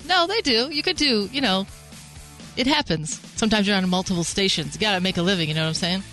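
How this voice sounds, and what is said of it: Smooth radio announcer voice. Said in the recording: “that's a good voice, too. Very radio voice.”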